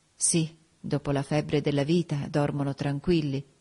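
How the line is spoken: Murmured. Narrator (Italian): mormorai

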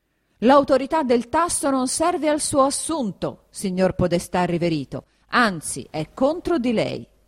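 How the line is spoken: Shouting again. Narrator (Italian): riprese a urlare il conte Attilio

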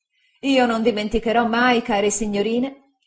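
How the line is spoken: Relieved exclamation. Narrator (Italian): esclamai sollevato da un peso immenso

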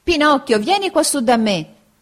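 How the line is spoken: Shouting. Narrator (Italian): grida Arlecchino

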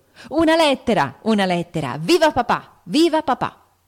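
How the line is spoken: Shouting joyfully. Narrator (Italian): Joe … gridando

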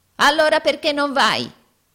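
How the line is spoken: Yelled. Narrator (Italian): urlò Arturo

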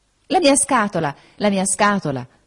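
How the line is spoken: Exclaiming. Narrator (Italian): esclamò

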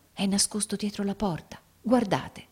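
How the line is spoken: Whispered. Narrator (Italian): egli bisbigliò

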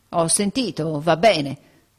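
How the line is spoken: Curt mutter. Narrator (Italian): borbottò seccamente

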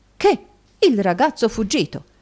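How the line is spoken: Exclaimed. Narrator (Italian): esclamò Snowley

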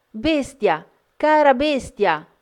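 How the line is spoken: Dismayed, frightened screaming. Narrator (Italian): Belinda, sgomenta, pensando di avergli cagionato la morte, urlando

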